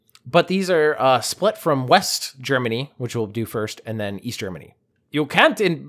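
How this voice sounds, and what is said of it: Usual voice. Nothing is said of it.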